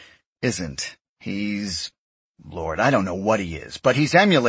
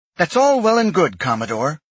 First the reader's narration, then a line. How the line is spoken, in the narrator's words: Grayson snapped